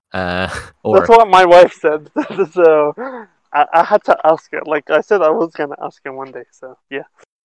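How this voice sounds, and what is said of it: Australian accent, slightly feminine-sounding voice. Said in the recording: “You sound pretty feminine if you ask me. But also the Australian accent. I don't know if you still have it, definitely. Sounds ... slightly effeminate or traditionally effeminate”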